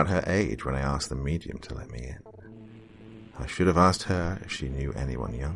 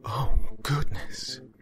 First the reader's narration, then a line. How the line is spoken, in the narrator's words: She gasped